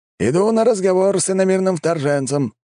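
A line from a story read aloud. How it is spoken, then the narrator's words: Shouted. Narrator (Russian): крикнул мужчина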